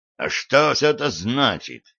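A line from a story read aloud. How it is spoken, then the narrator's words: Indignant question. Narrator (Russian): возмущенно спросил шериф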